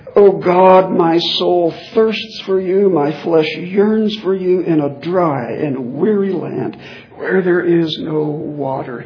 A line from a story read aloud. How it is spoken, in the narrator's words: cried out